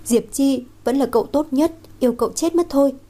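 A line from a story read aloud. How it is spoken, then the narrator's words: Moved, sobbing. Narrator (Vietnamese): Thẩm Lệ ... càng cảm động, thút thít nói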